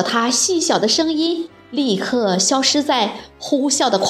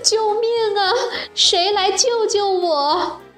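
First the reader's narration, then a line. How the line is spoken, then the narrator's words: Crying out. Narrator (Chinese): 她哭喊着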